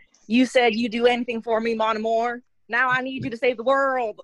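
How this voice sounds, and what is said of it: Put-on Southern Texas accent. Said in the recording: “Southern Texas accent? ... but with the Southern accent, please?”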